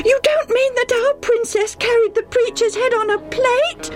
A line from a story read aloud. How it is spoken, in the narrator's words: Debbie almost screamed